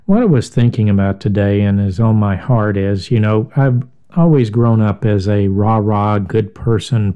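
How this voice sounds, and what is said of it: Voice sounds a little off. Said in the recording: “My voice is a little off. I was out in the weather raking leaves, and I guess it's affected me from the moisture and the cool”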